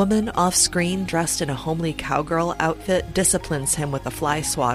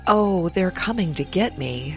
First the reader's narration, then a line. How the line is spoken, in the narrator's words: He moans